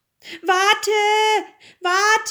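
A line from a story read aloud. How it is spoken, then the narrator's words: Frog calling. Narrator (German): rief der Frosch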